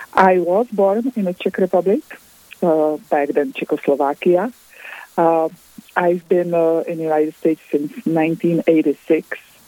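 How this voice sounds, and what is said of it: Non-American, Czech accent. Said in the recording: “your accent that you are not from the United States”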